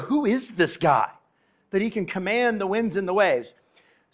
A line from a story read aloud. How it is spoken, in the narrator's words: they sat there whispering to each other